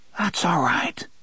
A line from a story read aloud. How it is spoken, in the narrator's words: Jake whispered in a dry voice